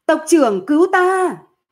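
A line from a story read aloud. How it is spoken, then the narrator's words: Loud scream. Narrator (Vietnamese): Thôi Khai Thành lúc này lớn tiếng hét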